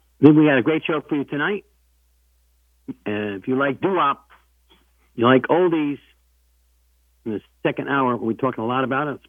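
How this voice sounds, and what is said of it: Sick, under-the-weather voice. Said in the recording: “If you think I sound a little different, I am. I'm under the weather. I've been sick for a week.”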